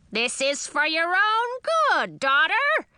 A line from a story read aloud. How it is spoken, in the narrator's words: screamed Grandmother